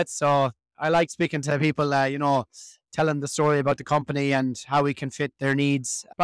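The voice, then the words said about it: Irish accent. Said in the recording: “I think the Irish accent is beginning to, everyone is noticing it ... the Irish accent did not go unnoticed”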